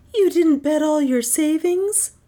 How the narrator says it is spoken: gasped Joyce

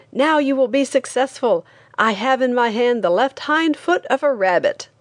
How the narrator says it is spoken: he shouted

